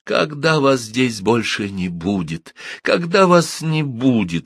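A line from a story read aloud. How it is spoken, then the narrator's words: Child's bitter cry. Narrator (Russian): с горечью воскликнуло бедное дитя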